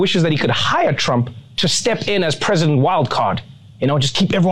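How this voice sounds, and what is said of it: Usual voice. Nothing is said of it.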